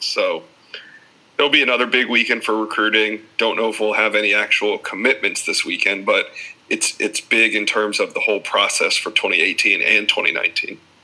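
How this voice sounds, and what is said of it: Smooth, silky radio voice. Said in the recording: “has such a nice like radio voice. ... has got like this nice silky smooth voice.”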